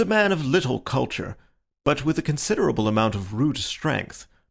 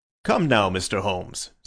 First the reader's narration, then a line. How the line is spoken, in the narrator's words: said he, laughing good-humouredly